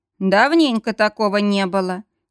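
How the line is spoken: Agreeing. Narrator (Russian): согласился Грег

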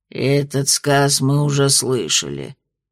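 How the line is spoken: Displeased grumble. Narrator (Russian): недовольно пробурчал Краунд

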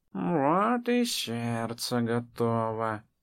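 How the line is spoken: Purring, forest woman. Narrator (Russian): промурлыкала лесная

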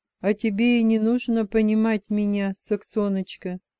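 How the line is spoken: Calm. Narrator (Russian): спокойно сказал он

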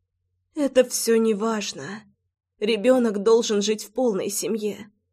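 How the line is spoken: Whispered like a verdict. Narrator (Russian): прошептала она, как приговор

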